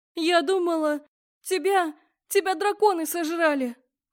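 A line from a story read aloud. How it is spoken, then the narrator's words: Sobbing. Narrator (Russian): всхлипнула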